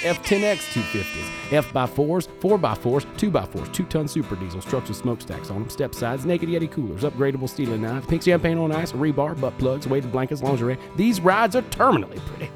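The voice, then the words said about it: Fake Southern American accent. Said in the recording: “my fake southern accent”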